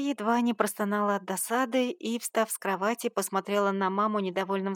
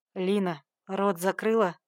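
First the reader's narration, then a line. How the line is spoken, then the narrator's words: Growled. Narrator (Russian): рыкнул Егор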